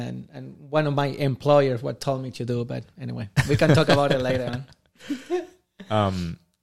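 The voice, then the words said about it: Non-native accent in English. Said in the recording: “I cannot lose my accent”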